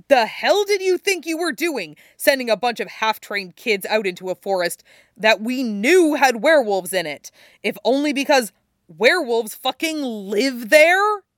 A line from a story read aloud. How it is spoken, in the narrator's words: Chris is already shouting at Jake's father